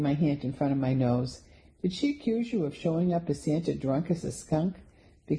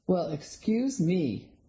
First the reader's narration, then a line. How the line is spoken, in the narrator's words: the man sneered